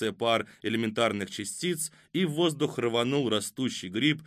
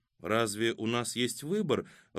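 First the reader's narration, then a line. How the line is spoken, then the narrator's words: Timid question. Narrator (Russian): робко спросила Катя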